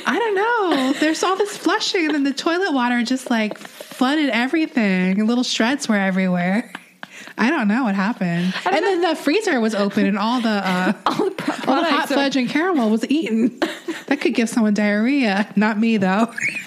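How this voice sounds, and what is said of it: Impression of another person. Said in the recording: “my impression”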